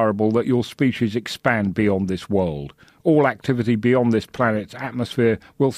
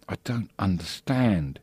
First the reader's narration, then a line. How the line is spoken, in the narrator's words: he whispered